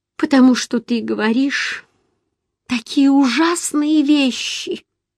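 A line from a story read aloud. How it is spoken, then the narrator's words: Sobbing loudly. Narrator (Russian): ответила я и зарыдала еще громче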